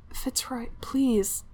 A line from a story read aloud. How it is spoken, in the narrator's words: Cleofer groaned, not even sure what he was saying